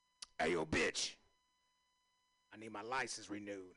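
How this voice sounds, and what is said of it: Imitates another person's voice. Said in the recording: “my impression of a DMX”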